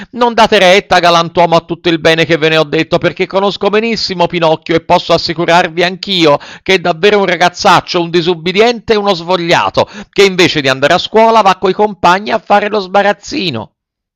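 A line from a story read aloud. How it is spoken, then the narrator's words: Frightened shouting. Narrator (Italian): tutto impaurito, cominciò a gridare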